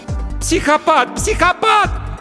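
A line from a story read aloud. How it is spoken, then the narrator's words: Screaming. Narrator (Russian): закричала она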